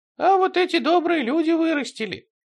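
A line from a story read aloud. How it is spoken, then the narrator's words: Squeaky. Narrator (Russian): пропищал Василиск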